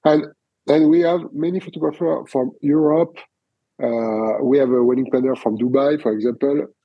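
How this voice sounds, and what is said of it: French accent in English. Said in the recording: “your accent is sexier, actually, than mine because of the French authenticity ... I really like your French accent”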